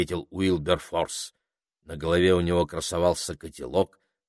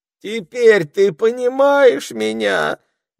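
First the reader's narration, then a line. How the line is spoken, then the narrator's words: Despairing moan. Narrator (Russian): в отчаянии простонал Рокфор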